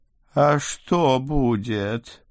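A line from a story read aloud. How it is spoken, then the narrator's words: Moaning fat vampire. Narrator (Russian): простонал толстый вампир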